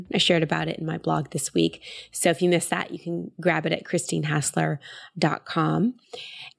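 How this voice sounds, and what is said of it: Voice slightly off, still recovering. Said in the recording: “Still getting my voice back, so if I sound a little different than normal, I'm still recovering from a bad sinus infection and ear infection”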